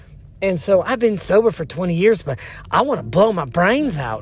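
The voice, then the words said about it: Put-on Southern accent. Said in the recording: “I don't know why I make everyone have a southern accent”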